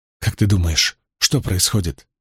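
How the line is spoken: Whisper. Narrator (Russian): прошептала она

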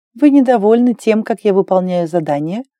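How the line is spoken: Plain question. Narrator (Russian): спросила Клэр

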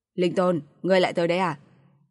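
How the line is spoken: Laughing. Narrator (Vietnamese): Vạn Kiếm Nhất bật cười nói

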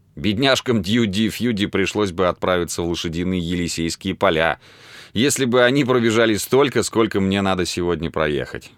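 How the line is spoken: Laughing. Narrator (Russian): засмеялся

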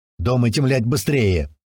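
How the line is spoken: Deep bass from another room. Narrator (Russian): снова пробасил из комнаты Иван

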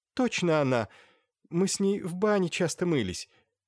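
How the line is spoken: Sobbing. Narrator (Russian): Аглая Мокиевна всхлипнула

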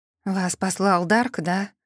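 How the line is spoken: Tired question. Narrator (Russian): устало спросила я

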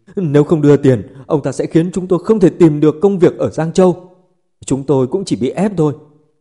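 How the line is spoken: Tearful pleading. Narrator (Vietnamese): Mấy người nước mắt nước mũi ròng ròng khóc lóc cầu xin

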